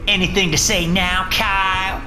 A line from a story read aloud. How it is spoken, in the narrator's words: Michaela added triumphantly